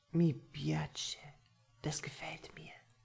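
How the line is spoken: Breathy whisper against lips. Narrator (German): haucht er an meine Lippen

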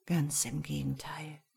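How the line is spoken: Whisper. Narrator (German): flüsterte

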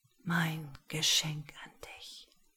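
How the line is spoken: Whisper. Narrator (German): flüsterte Rascal

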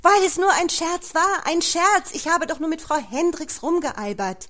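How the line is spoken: Desperate scream. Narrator (German): verzweifelt schrie

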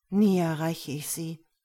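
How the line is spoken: Sighing man. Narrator (German): er seufzte

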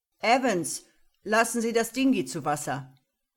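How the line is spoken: Calling out. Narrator (German): rief

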